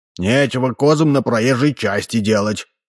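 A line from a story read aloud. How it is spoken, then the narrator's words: Grumbling mutter. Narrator (Russian): пробурчал Ложкин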